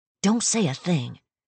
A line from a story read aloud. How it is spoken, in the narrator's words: Sienna hissed